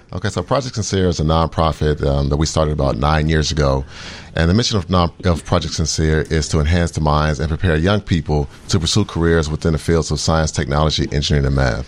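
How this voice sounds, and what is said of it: Smooth radio voice. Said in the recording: “you got a good radio voice, man ... that sweet, sexy voice you got going”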